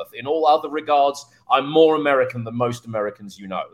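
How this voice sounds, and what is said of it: British accent. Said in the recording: “the only thing that's British about me is my accent”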